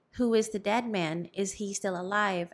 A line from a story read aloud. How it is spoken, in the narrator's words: asked the alferez